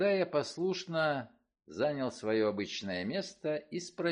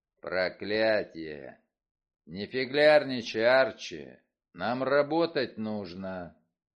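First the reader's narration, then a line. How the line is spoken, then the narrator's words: Growling. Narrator (Russian): Вульф прорычал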